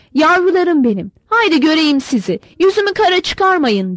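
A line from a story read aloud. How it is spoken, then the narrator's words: Shouting. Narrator (Turkish): diye bağırıyordu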